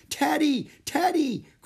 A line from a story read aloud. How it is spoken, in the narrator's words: cried Annie